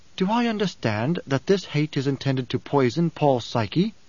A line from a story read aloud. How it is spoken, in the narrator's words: Irulan asked